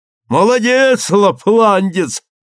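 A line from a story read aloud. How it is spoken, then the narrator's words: Shouted. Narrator (Russian): крикнул он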